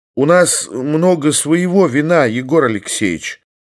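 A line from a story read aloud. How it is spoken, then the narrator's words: Timid, polite. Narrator (Russian): робко и вежливо заметил Никодим Александрович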